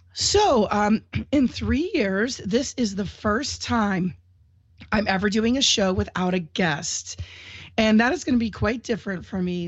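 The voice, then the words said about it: Congested voice from a cold. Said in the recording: “I have a little bit of a cold and I am getting through it. So I apologize if my voice sounds funny or I have to do a little sneeze or a cough”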